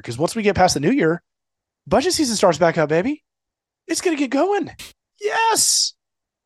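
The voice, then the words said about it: Forced enthusiastic impression of another voice. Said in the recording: “really forced enthusiasm ... that was my elf impression, right? Or my Will Ferrell impression ... Buddy the elf”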